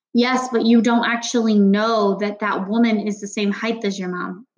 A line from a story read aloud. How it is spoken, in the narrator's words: Natalie said